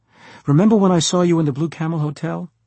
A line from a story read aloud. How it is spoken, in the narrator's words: I said excitedly